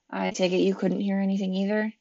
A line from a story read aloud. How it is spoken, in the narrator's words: she mumbled